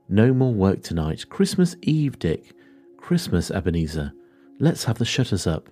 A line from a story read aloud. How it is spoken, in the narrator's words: cried old Fezziwig, with a sharp clap of his hands